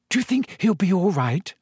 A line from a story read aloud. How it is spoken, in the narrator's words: said Hermione nervously